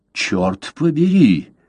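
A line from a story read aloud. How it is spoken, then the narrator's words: Exclamation. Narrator (Russian): воскликнул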